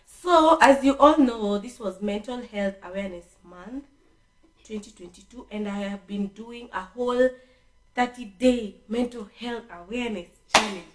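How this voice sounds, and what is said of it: Hoarse, nearly lost voice. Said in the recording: “as y'all can hear right now, my voice is, it's gone”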